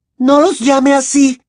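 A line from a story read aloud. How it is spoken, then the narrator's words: Indignant shriek. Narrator (Spanish): chilló Hermione indignada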